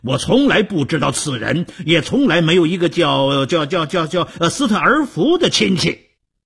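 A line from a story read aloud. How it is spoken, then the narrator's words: Angry loud shout. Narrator (Chinese): 德米福气冲冲地高声地大喊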